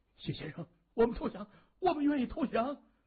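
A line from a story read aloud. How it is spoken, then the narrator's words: Urgent, trembling. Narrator (Chinese): 周天声音又急又颤抖的对谢文东说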